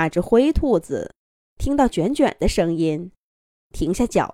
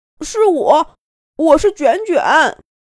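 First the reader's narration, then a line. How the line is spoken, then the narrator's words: Loud reply. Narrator (Chinese): 卷卷…大声回应道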